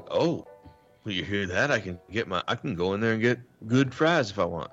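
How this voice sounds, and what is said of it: Put-on Southern accent. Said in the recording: “why does your example guy have a Southern accent? ... you always give him a Southern accent.”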